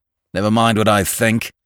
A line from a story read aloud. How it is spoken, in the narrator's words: said the young man roughly